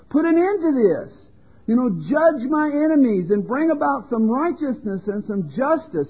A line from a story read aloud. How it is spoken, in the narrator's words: time after time he cried out to God